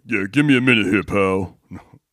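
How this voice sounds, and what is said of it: Deepened tough-guy voice. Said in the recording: “you try and do the tough guy. You base it up a little bit.”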